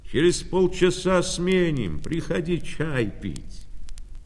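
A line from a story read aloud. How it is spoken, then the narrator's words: Cheerful shout. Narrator (Russian): крикнул весело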